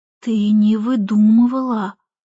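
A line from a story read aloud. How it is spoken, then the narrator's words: Hesitant whisper. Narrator (Russian): прошептал наконец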